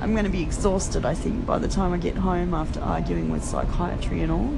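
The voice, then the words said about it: Broad Australian accent. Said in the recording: “Australian accent or a bogan accent... I'm pretty boganite”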